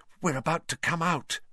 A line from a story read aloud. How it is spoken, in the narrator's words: Hermione breathed